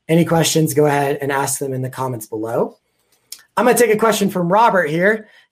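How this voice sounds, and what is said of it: Strained, fading voice. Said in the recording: “I'm kind of losing my voice. ... done a lot of talking today.”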